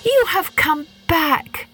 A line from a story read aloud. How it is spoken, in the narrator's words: cried Psyche